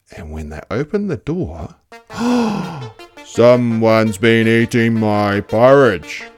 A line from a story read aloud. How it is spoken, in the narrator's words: growled Daddy Bear